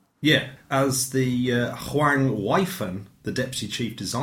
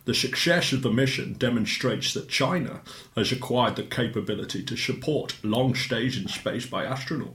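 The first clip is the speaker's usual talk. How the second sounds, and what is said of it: Sean Connery impression. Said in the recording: “Did he have that accent? ... I'm trying to figure out if that's Roger Moore or Michael Caine. ... Yeah, it's Sean Connery. ... It's Sean Connery when he's playing a foreigner.”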